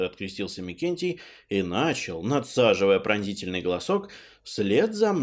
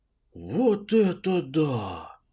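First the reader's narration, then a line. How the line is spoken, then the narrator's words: Stunned exhale. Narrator (Russian): выдохнул ошалевший Нилыч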